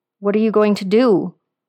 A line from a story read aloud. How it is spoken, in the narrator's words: He asked in a low, scared voice